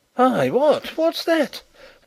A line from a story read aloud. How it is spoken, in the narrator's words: exclaimed a voice from the other side of the hall